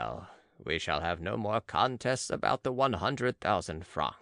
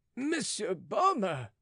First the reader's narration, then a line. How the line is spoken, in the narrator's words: cried the porter from below